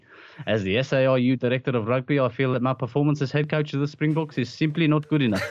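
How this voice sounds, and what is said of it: Put-on accent drifting French-sounding. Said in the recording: “I can't believe I managed to hold that accent. ... it went a bit Inspector Clouseau”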